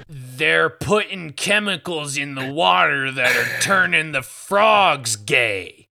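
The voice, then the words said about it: Imitates another person's voice. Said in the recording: “I routinely destroy my own voice by imitating Alex Jones.”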